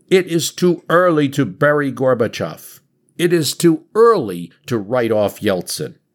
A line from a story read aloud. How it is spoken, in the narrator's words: He shouts out